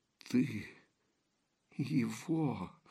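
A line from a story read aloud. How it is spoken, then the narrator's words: Awed terrified whisper. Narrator (Russian): С благоговейным ужасом прошептала Купава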